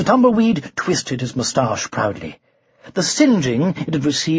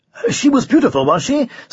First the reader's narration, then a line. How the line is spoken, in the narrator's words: said the Tumbleweed eagerly